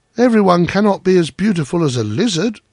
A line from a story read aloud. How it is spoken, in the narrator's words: they cried